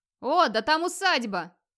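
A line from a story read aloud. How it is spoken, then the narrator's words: Sudden yell. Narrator (Russian): Вдруг заорал один из хирдманов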